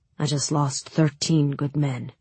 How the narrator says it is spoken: Sturmhahn said quietly

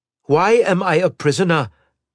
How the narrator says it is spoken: Dana said loudly

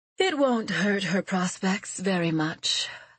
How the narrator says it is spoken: Lady Merrin said with a sigh

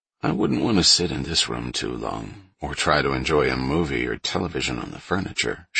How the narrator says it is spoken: she mumbled

